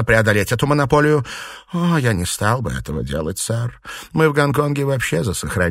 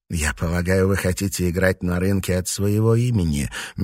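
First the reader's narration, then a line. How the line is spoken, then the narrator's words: Soft question. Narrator (Russian): мягко спросил он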